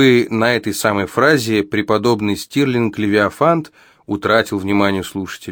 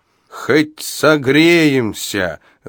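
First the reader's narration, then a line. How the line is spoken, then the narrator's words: Old man shouting back. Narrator (Russian): выкрикнул в ответ старик Абадия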